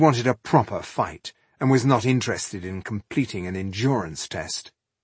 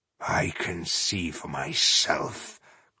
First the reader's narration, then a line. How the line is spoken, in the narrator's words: growled Iheart, who had grown tired of all this chasing about